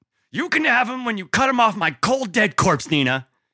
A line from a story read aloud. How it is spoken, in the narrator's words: he snapped at her, loud enough to make several of the EMTs and cops working the scene turn to look